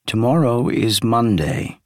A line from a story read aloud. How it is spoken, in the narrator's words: he said